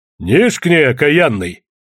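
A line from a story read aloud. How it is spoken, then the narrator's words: Barked. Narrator (Russian): рявкнул поп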